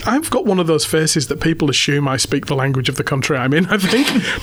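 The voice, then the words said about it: Accent others find hard to understand. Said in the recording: “a lot of people don't understand my accent”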